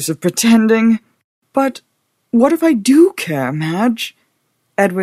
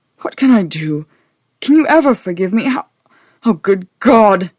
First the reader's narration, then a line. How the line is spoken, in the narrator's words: he ejaculated, his voice breaking miserably